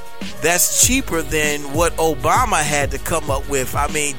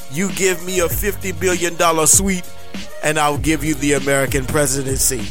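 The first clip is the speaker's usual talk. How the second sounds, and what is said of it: Vladimir Putin impression. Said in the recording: “my Vladimir Putin impersonation”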